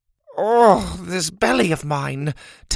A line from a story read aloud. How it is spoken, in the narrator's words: Tabitha groaned with every step